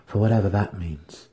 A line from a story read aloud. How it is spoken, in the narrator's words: he remarked under his breath